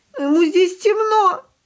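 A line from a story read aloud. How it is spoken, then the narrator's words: Sobbing. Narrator (Russian): продолжала рыдать Яночка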